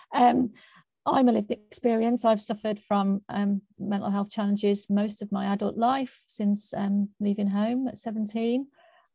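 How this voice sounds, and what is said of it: Croaky voice. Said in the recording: “my voice is a little bit croaky today”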